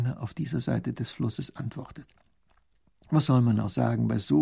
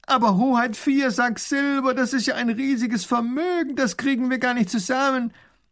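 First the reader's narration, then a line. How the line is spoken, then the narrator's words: Baron calling out. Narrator (German): ruft der Baron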